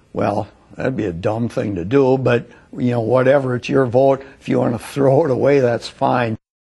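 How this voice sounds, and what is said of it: Wisconsin accent. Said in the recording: “Just that Wisconsin accent is just priceless.”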